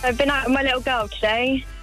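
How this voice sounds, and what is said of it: Slightly nervous voice. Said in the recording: “You sound a little nervous.”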